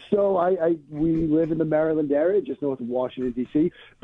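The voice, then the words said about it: Boston accent. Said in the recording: “I still cannot shake the Boston accent”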